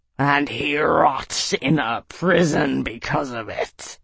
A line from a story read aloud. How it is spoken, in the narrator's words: Nasorg snarled, baring his fangs